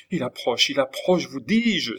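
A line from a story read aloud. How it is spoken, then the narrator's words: Terrified, crushed cry. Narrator (French): s'écria Lorenza, terrifiée, anéantie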